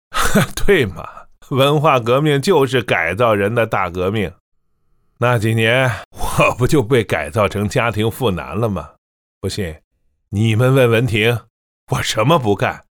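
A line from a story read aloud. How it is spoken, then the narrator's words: Laughing. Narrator (Chinese): 他笑道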